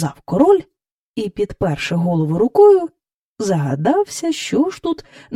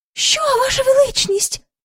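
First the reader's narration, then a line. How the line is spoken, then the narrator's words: Courtiers crying out. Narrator (Ukrainian): скрикнули придворні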